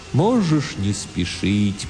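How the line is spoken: Strange, sad, distant voice. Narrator (Russian): произнес Тимулки очень странным, грустным, далеким, философическим голосом

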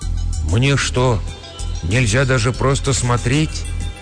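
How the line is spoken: Mother speaking quietly. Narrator (Russian): тихо промолвила матушка

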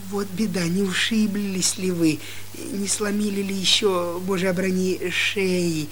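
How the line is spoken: Caring babble. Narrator (Russian): лепетала заботливая Хивря

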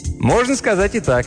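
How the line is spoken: Cheerful. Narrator (Russian): весело ответил Мелдон

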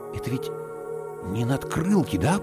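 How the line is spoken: Whisper. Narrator (Russian): прошептал я

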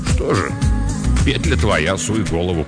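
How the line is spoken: Grumbled. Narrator (Russian): буркнул он

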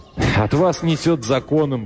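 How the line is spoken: Curt, then laughing. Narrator (Russian): бросил он и засмеялся

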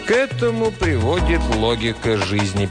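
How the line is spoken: Sad. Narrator (Russian): печально ответил тиран

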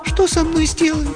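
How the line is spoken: Thin-voiced question. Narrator (Russian): спросила она тонким голосом, несмотря на свою решимость

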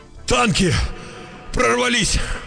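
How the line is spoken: Breathless exclamation. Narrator (Russian): выдохнул вбежавший

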